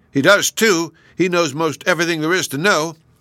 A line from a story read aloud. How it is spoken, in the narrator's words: angry at this, both the brothers shouted